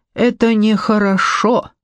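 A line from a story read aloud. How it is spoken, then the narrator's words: Sighing. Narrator (Russian): вздохнул он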